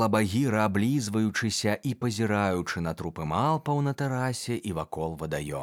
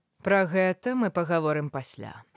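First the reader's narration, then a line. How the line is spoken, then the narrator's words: Dry. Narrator (Belarusian): сказала Багіра суха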